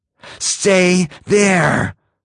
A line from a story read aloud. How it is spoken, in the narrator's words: gasped